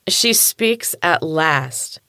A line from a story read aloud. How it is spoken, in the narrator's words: exclaimed with fake enthusiasm